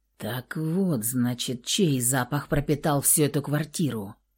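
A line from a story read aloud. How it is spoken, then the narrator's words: Hoarse low voice. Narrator (Russian): Раздался хриплый низкий голос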